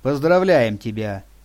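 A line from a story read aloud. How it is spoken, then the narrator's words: Dry. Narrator (Russian): сухо произнесла, обращаясь к Сергею, Лиля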